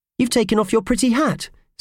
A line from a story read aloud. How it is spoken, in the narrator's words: said Purvis brightly